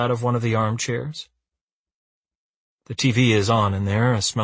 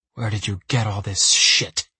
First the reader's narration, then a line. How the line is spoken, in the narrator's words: He hisses